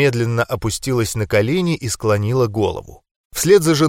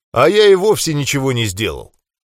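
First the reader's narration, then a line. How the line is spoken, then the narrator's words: Cheerful chuckle. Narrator (Russian): весело усмехнулся дядя Гена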